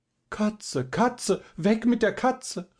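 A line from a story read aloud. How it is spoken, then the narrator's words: Nervous woman crying out. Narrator (German): rief eine nervenschwache Dame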